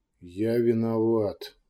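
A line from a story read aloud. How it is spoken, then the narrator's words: Barely audible. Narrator (Russian): де Лаэрт едва слышно произнес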